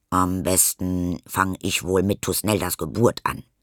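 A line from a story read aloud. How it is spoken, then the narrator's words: Plain. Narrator (German): sagt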